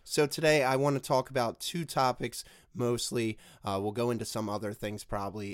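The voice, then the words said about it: Hoarse, strained sick voice. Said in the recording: “my voice is a little altered today ... It seems like I have strep throat or bronchitis or laryngitis ... I can actually barely talk ... how terrible my voice sounds today ... as bad as I sound”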